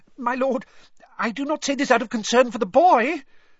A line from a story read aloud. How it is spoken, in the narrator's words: said Wormtail, his voice rising squeakily